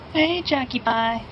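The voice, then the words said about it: High-pitched put-on flirty voice. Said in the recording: “That high-pitched voice. That's not his normal voice. That's like Chris Chan's sexy voice.”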